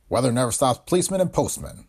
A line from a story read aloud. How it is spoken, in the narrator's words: chuckled Pancoast